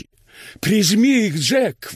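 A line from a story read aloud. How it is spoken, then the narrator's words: Yelling. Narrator (Russian): вопила она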